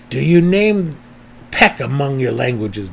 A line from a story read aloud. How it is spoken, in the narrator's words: Belwer growled from the door